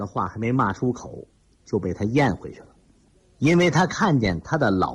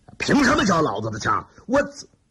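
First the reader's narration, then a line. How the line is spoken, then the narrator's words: Furious outburst. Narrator (Chinese): 李云龙恼羞成怒，发火道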